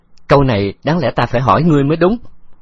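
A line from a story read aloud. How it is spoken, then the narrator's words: Laughing loudly. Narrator (Vietnamese): Khấu Trọng cười lớn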